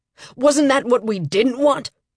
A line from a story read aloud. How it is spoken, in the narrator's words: I heard Lambert yell, via my ears rather than my brain pal